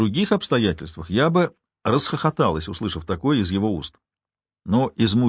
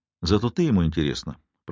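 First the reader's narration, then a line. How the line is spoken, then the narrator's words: Soft. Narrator (Russian): произнес Майло мягко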